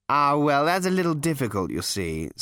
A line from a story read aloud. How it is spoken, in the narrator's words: said the captain